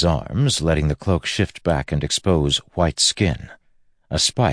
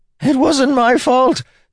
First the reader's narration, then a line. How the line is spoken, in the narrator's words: Templeton screamed